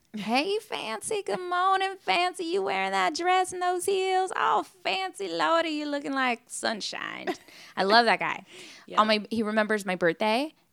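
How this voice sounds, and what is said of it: Imitates a Southern US accent. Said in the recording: “he's got an accent. He's from the South.”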